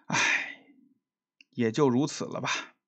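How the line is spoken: Sighing. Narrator (Chinese): 叹了口气

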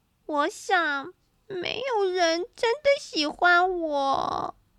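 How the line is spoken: Crying loudly. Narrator (Chinese): 玻璃放声哭了起来，说

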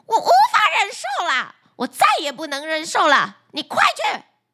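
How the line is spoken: Furious shouting. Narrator (Chinese): 渔夫的妻子勃然大怒，眼睛通红的对渔夫吼叫道

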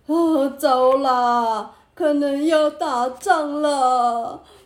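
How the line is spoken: Crying. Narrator (Chinese): 这次换大臣哭了起来

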